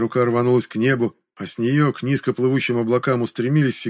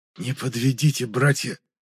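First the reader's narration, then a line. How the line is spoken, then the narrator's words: Whispered. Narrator (Russian): прошептал я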